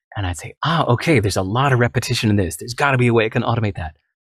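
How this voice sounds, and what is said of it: Excited tone of voice. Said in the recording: “this tone of excitement you hear in my voice.”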